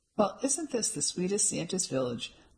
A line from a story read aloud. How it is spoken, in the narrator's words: Mum exclaimed